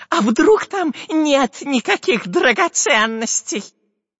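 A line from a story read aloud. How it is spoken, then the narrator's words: Doubtful squeak. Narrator (Russian): Сомнением пропищал разбойник Дырка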